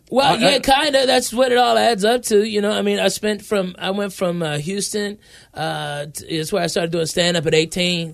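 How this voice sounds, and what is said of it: Southern, Cajun-like accent. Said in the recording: “you got an accent going... I always thought you were like a Cajun guy”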